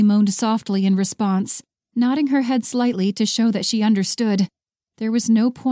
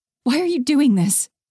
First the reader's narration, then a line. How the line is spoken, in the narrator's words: Haley gasped